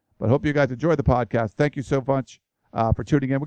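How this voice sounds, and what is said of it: Worn-out, strained voice. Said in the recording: “My voice is about shot.”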